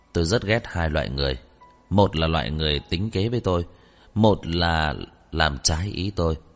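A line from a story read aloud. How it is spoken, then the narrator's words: Cold, after a pause. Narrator (Vietnamese): lại lạnh lùng nói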